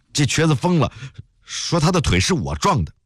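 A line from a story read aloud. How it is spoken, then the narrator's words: Slightly trembling voice. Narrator (Chinese): 大胡子司机声音有点发颤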